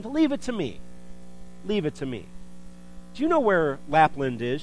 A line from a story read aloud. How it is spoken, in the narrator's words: exclaimed